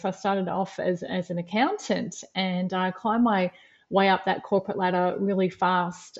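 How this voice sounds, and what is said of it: Australian accent. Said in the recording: “As you'll hear from my accent, I'm based in Australia. I'm in Melbourne, Australia.”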